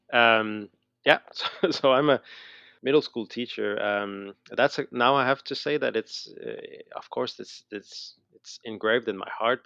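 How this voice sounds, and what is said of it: Slight Montreal Canadian accent. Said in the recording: “I still have a little accent, I guess. So I'm from Montreal. I'm from Canada.”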